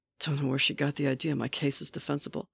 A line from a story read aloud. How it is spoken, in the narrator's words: mumbled